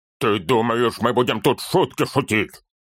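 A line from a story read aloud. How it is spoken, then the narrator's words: Growling. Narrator (Russian): зарычал он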